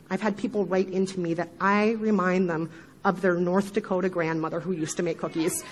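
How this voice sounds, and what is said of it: Midwestern American accent. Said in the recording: “the sound of my horrible Midwestern accent”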